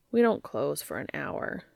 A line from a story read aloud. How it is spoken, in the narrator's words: Dean murmured